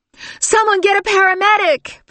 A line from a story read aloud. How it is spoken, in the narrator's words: Valerie shouted